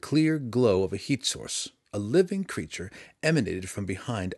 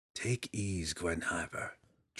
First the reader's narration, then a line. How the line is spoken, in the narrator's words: Drizzt called softly